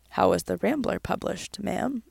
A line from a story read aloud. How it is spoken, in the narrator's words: asked Captain Brown in a low voice